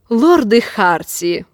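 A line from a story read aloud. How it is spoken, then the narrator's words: Snort. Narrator (Russian): фыркнул Лин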